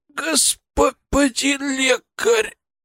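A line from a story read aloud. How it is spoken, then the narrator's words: Hoarse, pained rasp. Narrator (Russian): прохрипел он, и его губы скривились в гримасе боли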